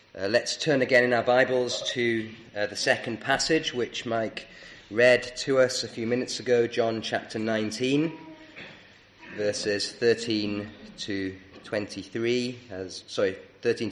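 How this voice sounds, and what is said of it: Croaky, hoarse voice. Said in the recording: “my voice is a bit croaky this morning”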